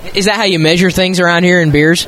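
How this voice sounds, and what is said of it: Texas accent. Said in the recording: “You had the good Texas accent going there”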